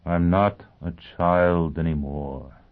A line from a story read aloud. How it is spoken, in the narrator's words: he said wearily